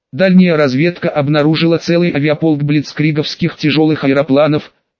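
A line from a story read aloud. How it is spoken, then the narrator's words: Plain answer. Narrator (Russian): ответил он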